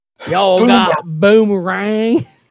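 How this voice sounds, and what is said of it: Put-on Southern accent. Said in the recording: “Everything's a Southern accent. ... Southern accent? Destroying it? ... That is exactly my Southern accent.”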